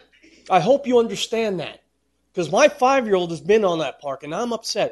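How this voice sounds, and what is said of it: Raised, upset voice. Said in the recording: “I'm sorry I'm raising my voice”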